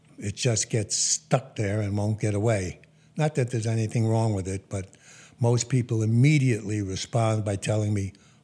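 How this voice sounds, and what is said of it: Faint Brooklyn accent. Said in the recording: “the remnants of the Brooklyn accent that never seems to go away”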